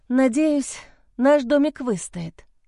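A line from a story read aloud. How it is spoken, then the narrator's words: Sighing. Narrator (Russian): вздохнула я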